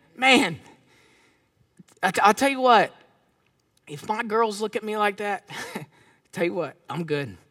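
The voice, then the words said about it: Emotional voice. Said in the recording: “Stop getting emotional”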